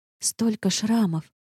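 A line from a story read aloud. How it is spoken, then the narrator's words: Whisper. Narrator (Russian): прошептала я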